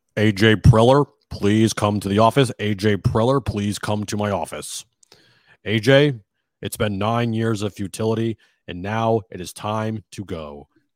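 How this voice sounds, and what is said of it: Impression of Hacksaw. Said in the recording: “impersonate Hacksaw firing AJ”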